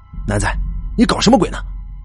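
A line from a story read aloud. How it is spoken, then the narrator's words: Alarmed shriek. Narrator (Chinese): 女儿已经惊叫起来了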